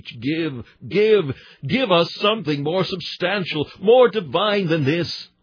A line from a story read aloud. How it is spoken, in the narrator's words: our hunger cried like the horse leech